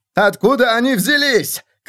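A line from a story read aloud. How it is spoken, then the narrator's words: Shouting. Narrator (Russian): кричал он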